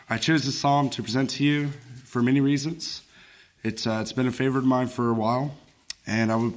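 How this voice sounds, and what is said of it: Voice affected, sounds unwell. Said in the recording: “I apologize for my voice. The allergy season has not been as good to me as I had hoped.”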